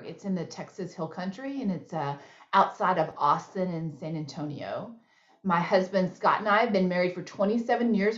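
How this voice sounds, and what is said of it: Texas accent. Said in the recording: “I live in Texas. I don't really think that's a secret because I've been told I have an accent”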